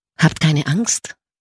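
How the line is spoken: Gentle ethereal voice. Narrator (German): sagte die lichte Erscheinung mit sanfter Stimme

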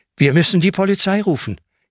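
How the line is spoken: Gasping. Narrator (German): japst Hanna

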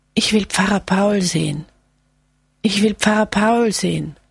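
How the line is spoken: Rattling, wheezing call. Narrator (German): Mit röchelnder Stimme ruft er

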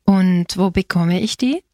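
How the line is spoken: Plain. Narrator (German): fragte Pirino

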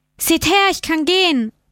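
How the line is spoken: Calling out to people. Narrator (German): rief er den Leuten zu

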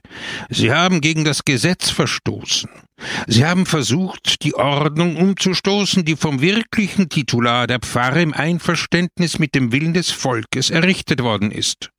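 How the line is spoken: Shouting. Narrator (German): rief Peppone

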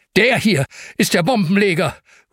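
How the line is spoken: Calling out. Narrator (German): ruft

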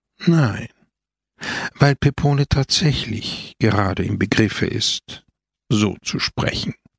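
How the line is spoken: Sighing reply. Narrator (German): antwortete Christus seufzend

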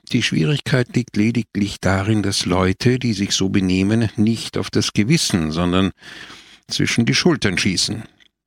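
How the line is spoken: Sighing. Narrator (German): seufzte wieder Don Camillo

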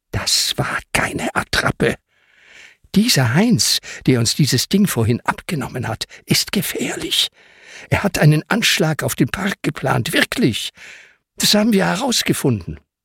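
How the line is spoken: Quiet but clear. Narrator (German): Ben sagt leise, aber deutlich

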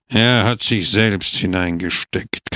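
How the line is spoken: Growled. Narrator (German): knurrte er

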